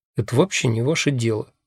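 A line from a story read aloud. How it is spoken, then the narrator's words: Mumbling. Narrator (Russian): бормочу я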